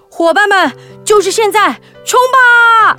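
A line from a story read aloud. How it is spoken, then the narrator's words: Loud shout. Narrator (Chinese): 獾大喊一声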